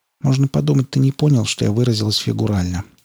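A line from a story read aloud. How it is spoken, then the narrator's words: Quiet reply. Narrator (Russian): негромко отозвалась Скалли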